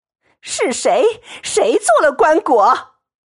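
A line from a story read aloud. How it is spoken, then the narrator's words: Repeated urgent shouting. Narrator (Chinese): 一叠声只叫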